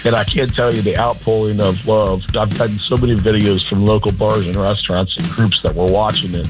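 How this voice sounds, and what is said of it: Hoarse, strained voice. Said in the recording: “Still a little hungover. I've lost my voice.”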